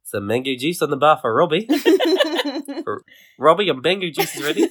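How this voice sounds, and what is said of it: Good put-on Australian accent. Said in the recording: “That's a very good Australian accent. ... I have perfected it over many years”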